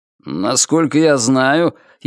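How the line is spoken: Sarcastic. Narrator (Russian): язвительно произнес он

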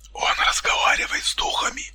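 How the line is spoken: Barely audible. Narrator (Russian): Едва слышно произнес Дмитрий

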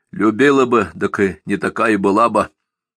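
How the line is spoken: Rough, unpleasant voice. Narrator (Russian): грубо откликнулся Донька, и собственный голос показался ему противным

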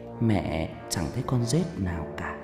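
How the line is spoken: Mother whispering. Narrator (Vietnamese): tiếng mẹ tôi thì thầm

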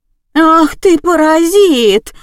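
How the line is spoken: Shrieking woman. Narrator (Russian): завопила продавщица

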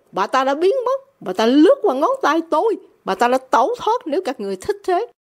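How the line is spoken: Angry. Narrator (Vietnamese): Francis nhún vai giận dữ

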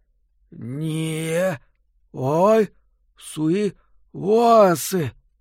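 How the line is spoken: Hoarse whisper. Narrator (Russian): Из каплевидного отверстия, которое теперь было его ртом, хриплым шепотом донеслось

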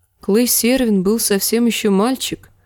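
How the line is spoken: Sad. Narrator (Russian): грустно заметила Кейтлин

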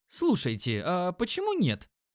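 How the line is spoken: Exclaiming. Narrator (Russian): воскликнул Димон

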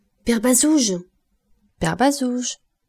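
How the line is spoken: Raised voice shout. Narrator (French): cria Gervaise en haussant la voix

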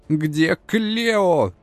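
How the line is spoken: Hysterical scream. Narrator (Russian): Не выдержав, истерично завопила спортивная волшебница

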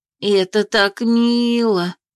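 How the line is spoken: Drawn-out, tender smiling. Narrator (Russian): протянула Анна с трогательной улыбкой

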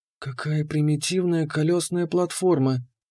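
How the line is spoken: Whisper. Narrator (Russian): прошептала Кира

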